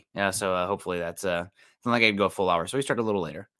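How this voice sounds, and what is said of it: Slightly hoarse, scratchy voice. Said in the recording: “My voice is already a little scroggy.”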